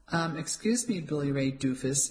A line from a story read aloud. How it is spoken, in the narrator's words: she said dryly